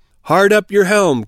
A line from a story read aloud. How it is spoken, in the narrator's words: cried the captain